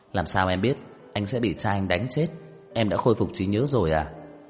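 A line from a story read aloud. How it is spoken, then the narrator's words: Surprised loud laugh. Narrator (Vietnamese): Trang Hạo Nhiên có chút kinh ngạc, cười to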